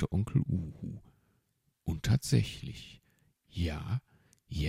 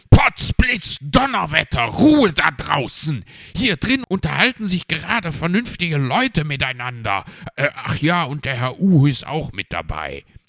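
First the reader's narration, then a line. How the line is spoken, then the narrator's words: Roaring. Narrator (German): korrigierte Herr Fuchs und brüllte dann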